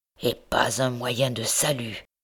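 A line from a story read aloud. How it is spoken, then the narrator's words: Murmur. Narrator (French): murmurait-il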